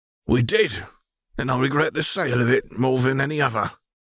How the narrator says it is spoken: he sighed

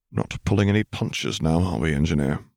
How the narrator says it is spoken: muttered

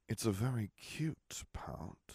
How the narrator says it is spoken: Harry murmured in her ear

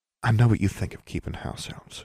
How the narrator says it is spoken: she said softly

